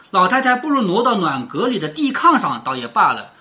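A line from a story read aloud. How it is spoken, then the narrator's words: Smiling. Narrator (Chinese): 王夫人笑着说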